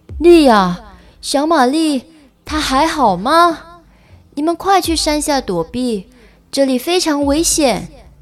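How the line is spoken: Happy yet worried shout. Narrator (Chinese): 他既开心又担心地向莉亚喊道

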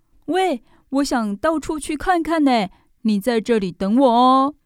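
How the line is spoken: Sudden shout. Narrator (Chinese): 宝儿突然对小兔子大喊

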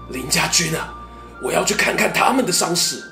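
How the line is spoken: Hoarse question. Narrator (Chinese): 凌统沙哑着嗓子问

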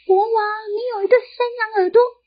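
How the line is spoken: Loud shout. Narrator (Chinese): 理发师大喊说

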